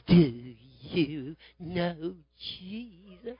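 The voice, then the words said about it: Breathy crooning singing voice. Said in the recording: “begins to sing in that breathy voice”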